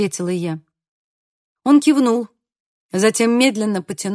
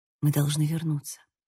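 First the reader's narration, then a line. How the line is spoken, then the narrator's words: Whisper. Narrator (Russian): прошептала я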